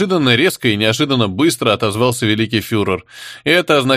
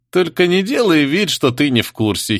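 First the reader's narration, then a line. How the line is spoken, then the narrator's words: Giggling. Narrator (Russian): хихикнул Лебра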